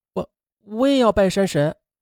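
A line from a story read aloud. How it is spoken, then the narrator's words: Quiet, timid request. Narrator (Chinese): 他就小声的提出来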